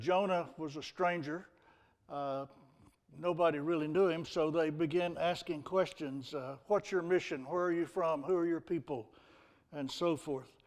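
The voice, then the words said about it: Texan accent. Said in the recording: “some people claim I have an accent ... Well, I'm from Texas.”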